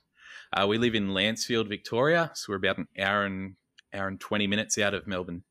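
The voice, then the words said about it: Australian accent. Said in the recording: “that's Australia ... if you couldn't tell by the accent”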